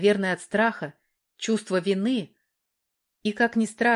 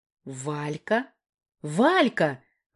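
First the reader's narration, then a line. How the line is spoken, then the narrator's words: Exclaimed. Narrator (Russian): воскликнула Наташка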